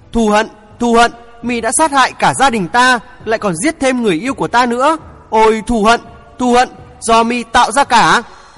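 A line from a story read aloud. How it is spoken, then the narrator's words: Loud yell through teeth. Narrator (Vietnamese): chàng nghiến răng cau mày hét lớn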